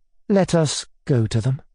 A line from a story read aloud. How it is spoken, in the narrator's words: I said timidly